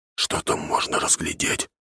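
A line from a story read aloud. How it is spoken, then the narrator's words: Whisper. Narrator (Russian): шепотом говорит забравшийся рядом червь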